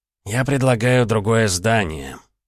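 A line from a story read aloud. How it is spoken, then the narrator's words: Sighing. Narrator (Russian): Лерхи вздохнул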